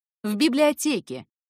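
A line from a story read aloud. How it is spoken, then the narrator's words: Loud, curt. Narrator (Russian): ответил также громко, решив раз и навсегда обрубить интерес к своей персоне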